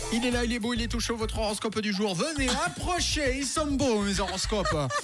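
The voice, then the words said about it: Put-on accent. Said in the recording (French): “cet accent peut ressortir de temps en temps”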